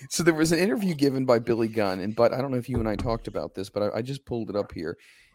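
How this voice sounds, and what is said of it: Hoarse, strained voice. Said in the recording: “I sound a little hoarse. I've been losing my voice.”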